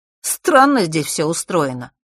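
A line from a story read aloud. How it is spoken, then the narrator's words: Snorting scoff. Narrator (Russian): хмыкнул Фэш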